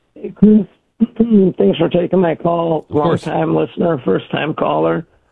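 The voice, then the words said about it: Hoarse, strained voice. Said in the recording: “lost my voice from all the yelling at the game”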